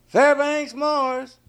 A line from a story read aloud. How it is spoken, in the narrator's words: he hollered